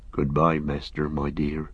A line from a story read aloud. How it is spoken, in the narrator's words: murmured